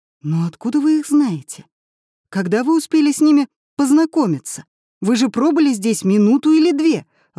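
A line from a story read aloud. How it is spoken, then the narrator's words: Exclamation. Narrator (Russian): воскликнул Семён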